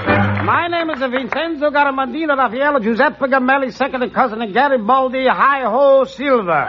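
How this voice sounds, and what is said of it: Put-on comic dialect. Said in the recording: “I better get out of that dialect.”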